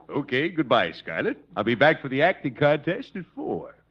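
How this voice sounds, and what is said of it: Imitates the Mad Russian character. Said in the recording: “I know who you're imitating. ... the Mad Russian.”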